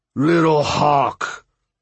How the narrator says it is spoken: his voice boomed

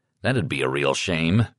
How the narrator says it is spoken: I grumbled

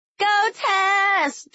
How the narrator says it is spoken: Jess and I yelled in unison, like we were cheering on our little pumpkin in an episode of Toddlers and Tiaras

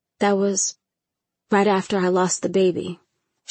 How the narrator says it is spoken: she sighed

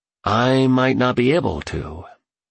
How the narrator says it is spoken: he said as his voice trailed off

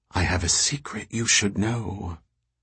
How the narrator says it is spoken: whispered

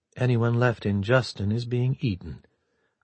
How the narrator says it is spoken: Murakuma said very quietly

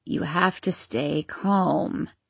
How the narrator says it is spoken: croaked Mrs

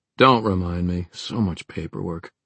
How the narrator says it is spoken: Aline grumbled

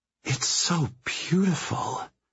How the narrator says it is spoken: whispers

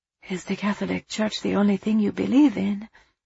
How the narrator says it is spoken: Angelo sighed

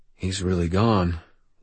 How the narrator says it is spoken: Will said quietly

